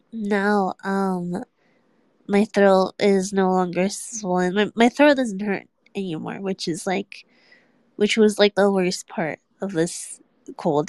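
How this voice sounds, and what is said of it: Nasal, congested voice. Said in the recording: “My nose is very very stuffy now ... you can really hear the sickness ... my nose is pretty stuffy, so if I sound nasally, that's probably why”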